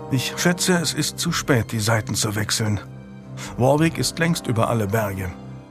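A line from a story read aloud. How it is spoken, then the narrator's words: Murmur. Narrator (German): murmelte er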